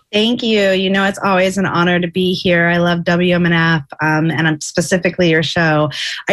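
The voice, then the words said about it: Voice sounds a little funny. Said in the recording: “I'm on my sixth day of my second bout of COVID. So if my voice sounds a little funny, I'm still recovering”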